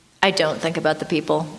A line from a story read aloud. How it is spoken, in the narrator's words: Sasha said